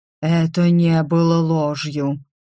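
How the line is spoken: Irritated dragon growling. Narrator (Russian): раздраженно рыкнул дракон

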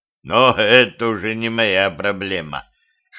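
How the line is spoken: Snorting phantom. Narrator (Russian): хмыкнул фантом

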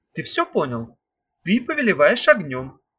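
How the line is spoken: Calm, matter-of-fact. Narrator (Russian): Спокойно, как о чем-то совсем рядовом, сказала Ната

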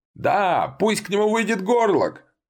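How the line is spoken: Eager crowd yelling. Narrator (Russian): орали они в надежде

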